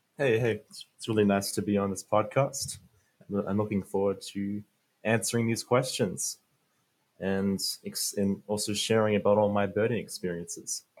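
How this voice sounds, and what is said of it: Mixed American-Australian accent. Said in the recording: “it's created this American-Australian accent. So it's a hard one to figure”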